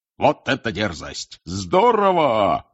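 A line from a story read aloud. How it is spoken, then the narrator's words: Shouting. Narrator (Russian): кричал Бэгман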